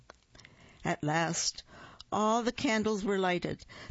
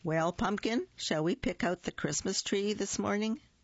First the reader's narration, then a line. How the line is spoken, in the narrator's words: she asked